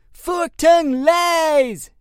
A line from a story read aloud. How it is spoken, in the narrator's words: shouted Tom, crushing his joint in anger